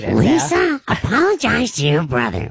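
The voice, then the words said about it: Marge Simpson cartoon voice impression. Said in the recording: “I thought I did a good Marge Simpson ... Can you give us your Marge? ... really good ... It's serviceable”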